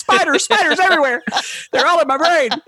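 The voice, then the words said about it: Put-on southern accent. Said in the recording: “with a southern accent.”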